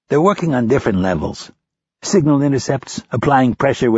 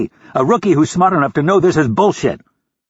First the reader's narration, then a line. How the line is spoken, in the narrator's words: Rapp yelled